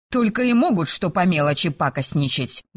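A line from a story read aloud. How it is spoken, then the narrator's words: Grumbling mutter. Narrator (Russian): буркнула она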